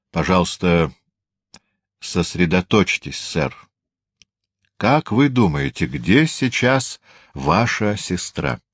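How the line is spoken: Increasingly stern schoolmasterly tone. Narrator (Russian): Инспектор говорит все более суровым тоном, словно какой-нибудь директор школы

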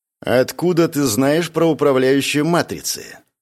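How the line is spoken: Cold question. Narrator (Russian): Холодным тоном спросила Лирен

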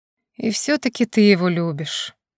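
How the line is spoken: Sigh. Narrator (Russian): вздохнул Тебо

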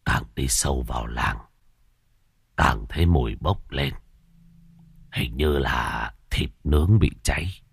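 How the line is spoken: Old beggar muttering. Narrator (Vietnamese): Lão ăn mày lẩm bẩm

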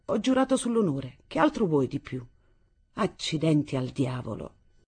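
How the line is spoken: Annoyed tone. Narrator (Italian): conclusi in tono seccato

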